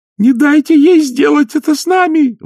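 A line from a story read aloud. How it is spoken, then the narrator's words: Shrieking. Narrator (Russian): взвизгнула Агнесса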